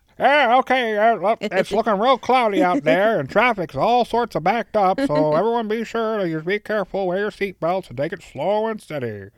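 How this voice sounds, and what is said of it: Radio helicopter traffic reporter voice. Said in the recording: “That's my helicopter reporter voice. ... Very good impersonation”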